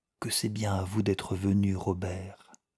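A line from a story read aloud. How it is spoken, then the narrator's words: Low voice. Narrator (French): ajouta-t-elle dans le même ton, à voix basse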